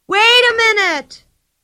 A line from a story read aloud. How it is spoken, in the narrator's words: shrieked Pippi after her